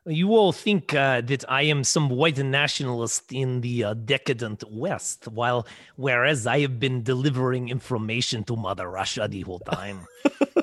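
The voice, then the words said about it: Poor put-on Russian accent. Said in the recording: “Sorry, that was a terrible accent ... Not so bad ... I hope Russians take that in the spirit in which it was given”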